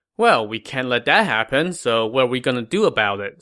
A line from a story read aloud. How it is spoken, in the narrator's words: Sima Wang asked